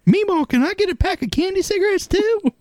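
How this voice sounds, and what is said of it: Little girl voice. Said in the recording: “the little girl voice”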